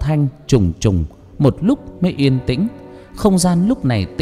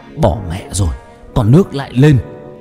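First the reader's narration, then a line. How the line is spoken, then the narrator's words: Yelling. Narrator (Vietnamese): Trung Tài mới gào lên nói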